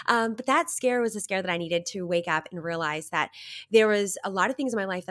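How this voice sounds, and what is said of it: Nasal, congested voice. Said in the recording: “I have a little bit of a cold. You might hear I'm a bit nasally”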